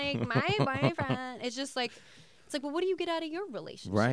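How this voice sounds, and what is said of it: Usual voice. Nothing is said of it.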